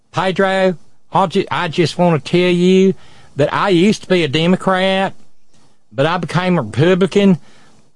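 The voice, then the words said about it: Deep Southern Coalfields accent. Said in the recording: “she had that deep Southern Coalfields accent.”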